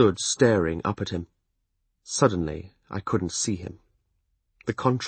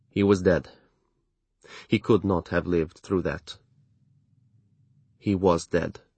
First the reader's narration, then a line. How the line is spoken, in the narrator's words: he said flatly